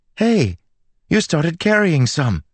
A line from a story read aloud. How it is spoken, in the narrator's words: Melody exclaimed